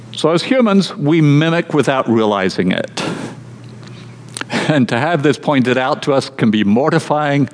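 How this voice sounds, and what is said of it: Mixed Australian, American and British accent. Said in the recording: “at the age of 6, I had an Australian accent. By 9, it was American ... Then I moved to Scotland and then to the southeast of England. And then I'm here in the US ... I have a very mixed up accent. And I'm recognized as being foreign wherever I go.”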